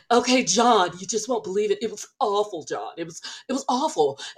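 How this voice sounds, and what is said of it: Imitates another person's voice. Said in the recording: “my Lisa impression ... my Lisa's almost there ... It's really good.”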